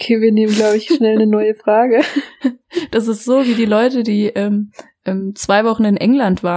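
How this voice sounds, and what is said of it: Usual voice. Nothing is said of it.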